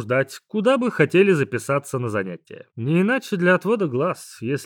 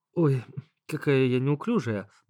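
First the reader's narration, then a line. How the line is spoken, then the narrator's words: Muttering. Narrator (Russian): пробормотала Света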